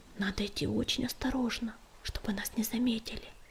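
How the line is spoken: Whisper. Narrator (Russian): прошептал он

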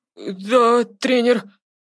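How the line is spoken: Frightened babbling reply. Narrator (Russian): Испуганно пролепетал в ответ Треверс

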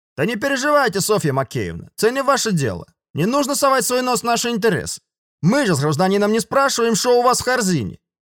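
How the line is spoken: Loud man's reply. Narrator (Russian): Громко ответил мужик

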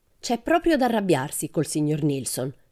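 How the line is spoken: Exclaimed. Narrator (Italian): esclamò Pippi

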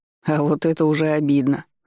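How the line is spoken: Grumbling. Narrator (Russian): ворчал я

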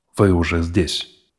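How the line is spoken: Tired. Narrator (Russian): устало произнес он

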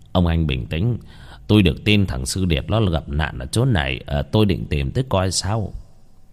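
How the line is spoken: Gentle voice. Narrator (Vietnamese): nói bằng giọng nhẹ nhàng

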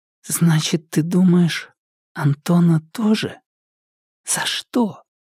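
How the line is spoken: Sleepy whisper. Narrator (Russian): уже засыпая, Маша вдруг спросила шепотом

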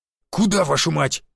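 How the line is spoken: Growled. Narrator (Russian): рыкнул Буян

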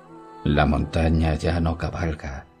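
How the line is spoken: Mournful prince. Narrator (Spanish): dijo el príncipe con voz lúgubre

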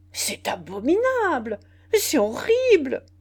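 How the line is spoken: Many voices exclaiming. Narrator (French): s'écrièrent toutes les voix

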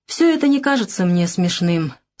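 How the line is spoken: Dry, wounded reply. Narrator (Russian): сухо ответил он, уязвленный ее равнодушием

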